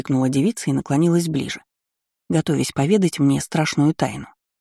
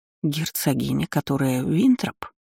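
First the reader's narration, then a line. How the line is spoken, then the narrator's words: Weak mumble. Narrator (Russian): Слабым голосом пробормотала я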